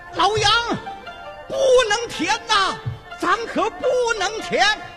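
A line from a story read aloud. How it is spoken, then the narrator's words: Anxious crowd crying out. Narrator (Chinese): 众乡亲直急的连声呼喊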